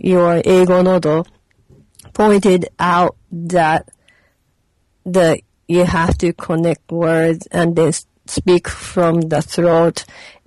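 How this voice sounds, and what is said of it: English with Japanese accent. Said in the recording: “my English with Japanese accent.”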